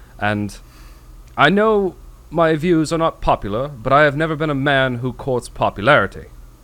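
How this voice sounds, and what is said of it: Put-on British accent, deadpan monotone. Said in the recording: “deadpan, like, monotone ... a good British accent ... Did I do good with that accent? ... Yeah, it wasn't bad. I thought you were going to put more of a hammy spin on it. ... I tried to make it authentic”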